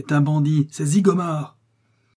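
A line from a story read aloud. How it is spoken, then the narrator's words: Shouted. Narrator (French): cria Paulin Broquet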